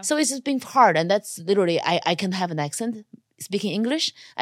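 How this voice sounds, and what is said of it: Non-native English accent. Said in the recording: “my accent is just not helping me because they don't have roles written for a girl that's not born in America, an Asian girl”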